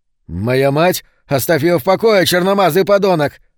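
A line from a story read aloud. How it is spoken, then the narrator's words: Almost shouting. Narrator (Russian): Он почти кричал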